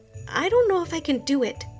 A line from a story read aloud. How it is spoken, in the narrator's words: she whispered to her friend Kiana